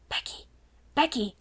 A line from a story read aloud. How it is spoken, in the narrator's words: she whispered as loudly as she dared